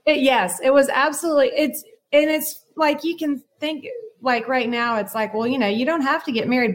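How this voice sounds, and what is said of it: Southern American accent. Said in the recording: “you were raised in the South. Am I right? I hear your accent.”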